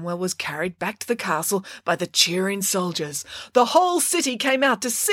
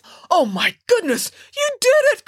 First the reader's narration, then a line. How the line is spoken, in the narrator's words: cried